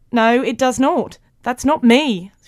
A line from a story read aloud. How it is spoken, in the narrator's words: shouted Mo